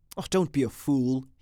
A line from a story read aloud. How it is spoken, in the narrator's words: he said irritably